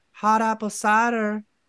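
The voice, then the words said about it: Put-on Southern accent. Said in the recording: “With that accent from the South.”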